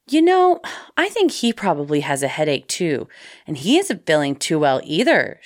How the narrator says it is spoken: She continued calmly

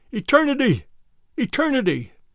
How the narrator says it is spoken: His voice was hoarse and very loud

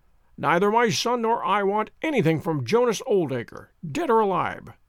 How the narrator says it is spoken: she cried, with a proper spirit

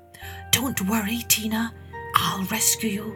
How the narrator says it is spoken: he whispered

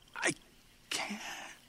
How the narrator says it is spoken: he whispered

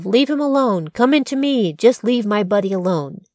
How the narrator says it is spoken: He shouted

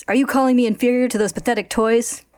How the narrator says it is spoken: Envy, enraged, snaps

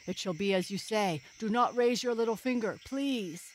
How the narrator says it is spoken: he cried

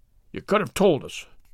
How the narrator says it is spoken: growled Mr

